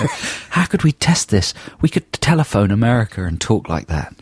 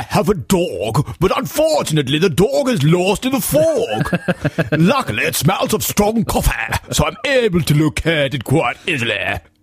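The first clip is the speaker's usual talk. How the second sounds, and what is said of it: Exaggerated posh British accent. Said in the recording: “Lord of the Manor, Lord Snooty kind of deal ... what Americans like to imagine Britain as ... talking like that”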